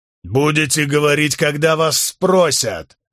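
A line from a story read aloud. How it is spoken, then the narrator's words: Sharp bark. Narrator (Russian): рявкнул Уорик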